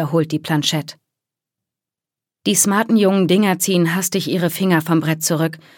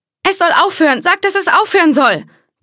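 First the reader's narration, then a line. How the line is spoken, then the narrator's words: Girl shrieking. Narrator (German): kreischt eines der Mädchen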